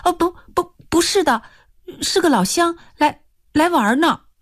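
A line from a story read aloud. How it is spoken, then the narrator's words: Hurried. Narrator (Chinese): 一秦娥急忙说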